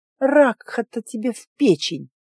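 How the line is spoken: Groan. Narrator (Russian): простонала я

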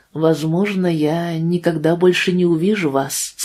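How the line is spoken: Plain. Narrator (Russian): сказал он

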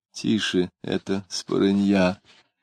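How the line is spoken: Whisper. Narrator (Russian): шептала она

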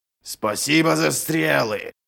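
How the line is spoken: Roaring. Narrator (Russian): проревел Ральф

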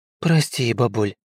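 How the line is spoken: Absent-minded mutter. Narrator (Russian): машинально пробормотала себе под нос Грейс

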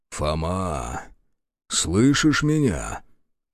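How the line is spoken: Quiet call. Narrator (Russian): тихонько позвал Захар

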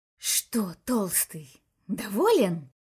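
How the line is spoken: Hissed in ear. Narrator (Russian): прошипел комиссар на ухо Баксу

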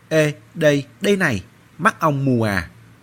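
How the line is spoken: Angry yell. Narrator (Vietnamese): Anh Mao tức giận gào lên

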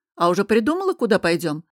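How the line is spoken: Sly purring. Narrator (Russian): проурчал Костя и, расплывшись в коварной улыбке, хмыкнул

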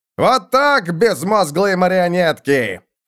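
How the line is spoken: Shouting over gunfire. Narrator (Russian): крикнул капитан Хульц оттуда, где его пистолеты вели огонь по упырям

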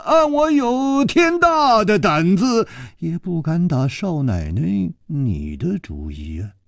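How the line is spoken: Sighing. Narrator (Chinese): 楚留香叹了一口气说

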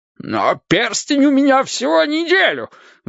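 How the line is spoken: Shriek. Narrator (Russian): взвизгнул Борис Ильич

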